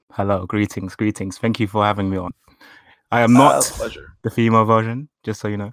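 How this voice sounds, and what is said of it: Man's voice with a distinct accent. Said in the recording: “That's a dude voice, and it's awesome. I love your accent. ... you got a cool accent.”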